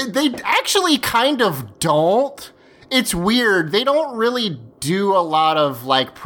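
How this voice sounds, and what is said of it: Usual voice. Nothing is said of it.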